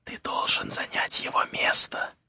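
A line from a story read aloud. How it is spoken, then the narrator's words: Indistinct whisper. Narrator (Russian): прошептала она невнятно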